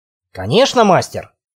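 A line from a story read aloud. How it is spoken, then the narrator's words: Angry snarl. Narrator (Russian): зло ощерился Мэтт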